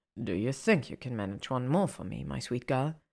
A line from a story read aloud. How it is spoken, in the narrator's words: He asks, filling her with a low groan